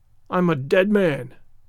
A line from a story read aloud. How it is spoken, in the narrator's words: groaned the ranger